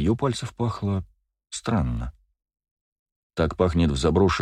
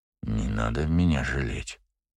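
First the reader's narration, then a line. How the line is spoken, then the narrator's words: Muttered. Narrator (Russian): пробормотал Фишер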